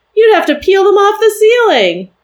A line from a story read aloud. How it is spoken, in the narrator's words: I laughed again